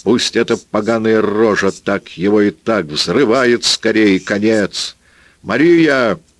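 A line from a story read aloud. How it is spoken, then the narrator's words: Mighty bellow toward forest. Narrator (Russian): гаркнула она своим могучим голосом, обернувшись к лесу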